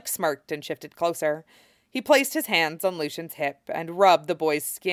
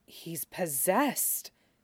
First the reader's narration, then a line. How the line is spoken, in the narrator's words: Dame Leary whispered, in the same tone usually reserved for talk of the tower